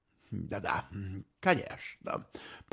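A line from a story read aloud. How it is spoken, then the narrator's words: Muttered. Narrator (Russian): пробормотал он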